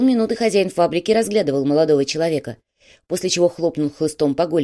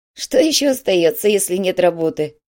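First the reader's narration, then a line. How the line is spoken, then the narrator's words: Giggle. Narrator (Russian): хихикнул Корнелиус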